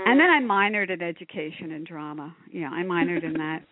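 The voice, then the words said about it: Nasal Philadelphia accent. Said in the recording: “my nasal Philadelphia accent, which I can't get rid of”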